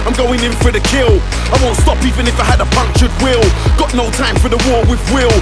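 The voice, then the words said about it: London accent. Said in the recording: “You can tell by my accent that I'm straight out of London City.”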